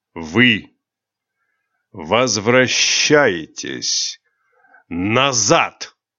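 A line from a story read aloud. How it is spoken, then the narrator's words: Near growl. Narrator (Russian): Почти прорычал темный король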